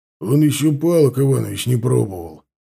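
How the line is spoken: Grumbling. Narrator (Russian): проворчал стоящий рядом Сошников

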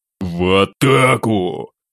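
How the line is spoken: Mental growl. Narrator (Russian): Ментально прорычал я

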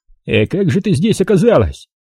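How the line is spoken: Colonel's loud bark. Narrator (Russian): гаркнул полковник

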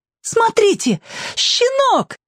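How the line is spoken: Delighted exclamation. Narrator (Russian): восторженно воскликнула Алька

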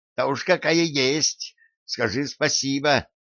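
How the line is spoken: Shrill. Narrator (Russian): визгливо произнесла она

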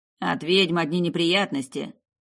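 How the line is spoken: Grumbling. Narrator (Russian): проворчал Лупертина

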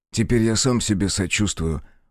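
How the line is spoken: Glum reply. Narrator (Russian): уныло ответил Алекс

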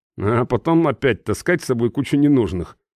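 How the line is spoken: Grumbling. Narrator (Russian): проворчал я

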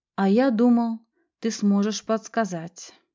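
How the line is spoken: Sigh. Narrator (Russian): вздохнул Анте

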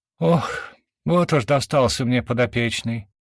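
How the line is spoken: Deep heavy sigh. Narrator (Russian): вздохнула так, что платье натянулось на груди

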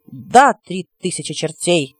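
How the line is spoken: Exclaimed. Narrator (Russian): воскликнул нечестивец

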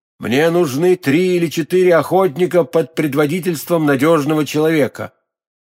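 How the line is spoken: Loud. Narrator (Russian): герцог Орлеанский громко проговорил

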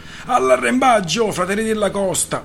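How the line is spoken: Yelled. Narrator (Italian): urlò

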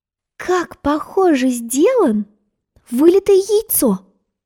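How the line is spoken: Exclaimed. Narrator (Russian): воскликнула Алиса

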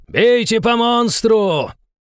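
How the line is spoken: Enemy commander yelling. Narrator (Russian): заорал командир противника

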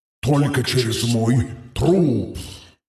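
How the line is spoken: Growl. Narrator (Russian): рыкнул Золотой

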